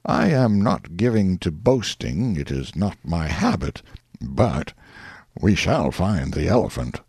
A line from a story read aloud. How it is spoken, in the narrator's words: said in a placid voice